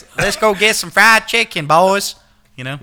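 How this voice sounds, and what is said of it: Put-on Southern accent. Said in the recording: “I'm trying to do a southern accent.”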